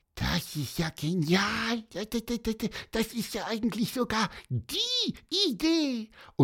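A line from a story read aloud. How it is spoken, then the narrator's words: Quiet squeaky voice. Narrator (German): leise piepselte er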